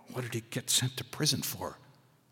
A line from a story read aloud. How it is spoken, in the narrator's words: I whispered to Hackleman